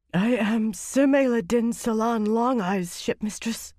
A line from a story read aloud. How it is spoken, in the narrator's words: she said hoarsely